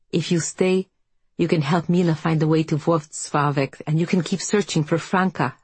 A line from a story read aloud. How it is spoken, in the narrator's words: Helena said